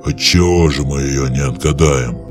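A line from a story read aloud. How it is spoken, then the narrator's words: Growling. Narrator (Russian): зарычал на него Громила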